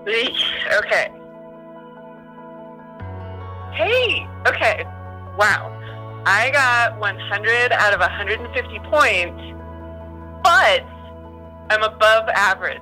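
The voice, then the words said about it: Shaky, trembling voice. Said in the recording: “I'm shaking, for one. Like, my hands are shaking, and you can probably hear it in my voice.”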